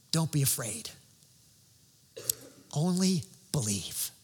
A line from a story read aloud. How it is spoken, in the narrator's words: whispered